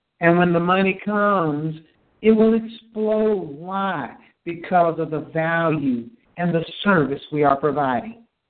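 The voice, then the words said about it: Passionate, impassioned delivery. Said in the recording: “That's the passion you hear in my voice.”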